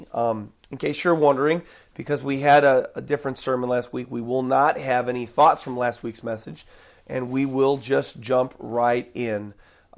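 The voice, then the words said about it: Strained, allergy-affected voice. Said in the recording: “I've got some allergies ... My voice is, uh, I'm having a little struggle in my voice”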